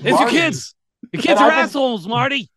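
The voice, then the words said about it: Squeaky impression of a film character. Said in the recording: “doing that squeaky voice ... doing Marty as a squeaky voice ... stealing your impression”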